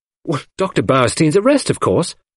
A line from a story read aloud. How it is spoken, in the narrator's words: I answered impatiently